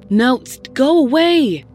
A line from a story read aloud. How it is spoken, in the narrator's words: Sarah shouted